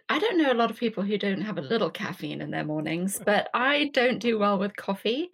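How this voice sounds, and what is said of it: English accent. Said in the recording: “I grew up in England, as you can probably tell from my accent.”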